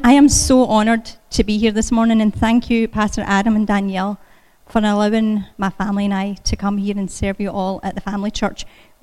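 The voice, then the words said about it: Scottish accent. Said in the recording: “as you can tell by this accent, I wasn't born in Pickerington ... I was born in Scotland”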